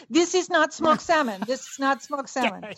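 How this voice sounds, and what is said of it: Natasha-style put-on Russian accent. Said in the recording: “I like your Natasha accent.”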